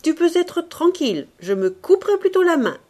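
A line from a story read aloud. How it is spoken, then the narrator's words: Shouted. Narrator (French): cria le docteur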